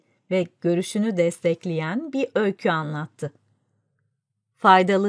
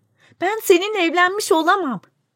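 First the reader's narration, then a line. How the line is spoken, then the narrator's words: Shouted. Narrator (Turkish): diye bağırdı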